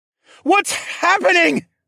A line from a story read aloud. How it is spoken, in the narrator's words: I shouted over the roar of fire